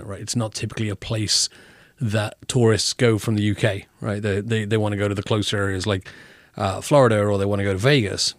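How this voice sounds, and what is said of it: British accent. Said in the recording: “I love your accent ... are you from Australia?”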